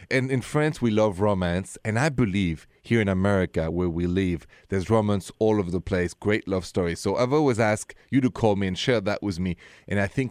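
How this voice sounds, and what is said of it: Thick French accent. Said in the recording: “my accent is French, this thick French accent of mine”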